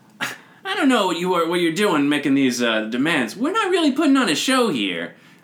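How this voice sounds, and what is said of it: Character voice for the Genasi. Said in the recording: “could do the voices ... as the Genasi”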